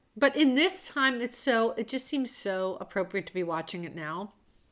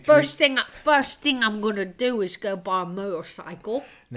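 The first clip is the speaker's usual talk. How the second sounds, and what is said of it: Bad put-on British accent. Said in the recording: “the worst British accent I've ever done.”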